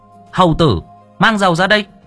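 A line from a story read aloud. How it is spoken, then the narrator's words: Roaring. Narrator (Vietnamese): Nó gầm thét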